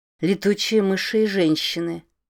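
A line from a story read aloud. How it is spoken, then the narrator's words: Cold. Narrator (Russian): холодно произнесла она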